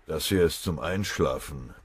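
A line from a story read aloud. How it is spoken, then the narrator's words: Venomous growl. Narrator (German): knurrte Oberwachtmeister Fröbe giftig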